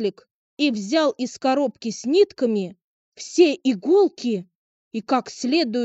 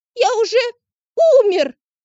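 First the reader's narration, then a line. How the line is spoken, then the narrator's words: Piercing squeal. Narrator (Russian): завизжал козлик так, что прибежал доктор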